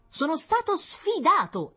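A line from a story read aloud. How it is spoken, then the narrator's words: Dignified exclamation. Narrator (Italian): esclamò dignitosamente il professor Terenzio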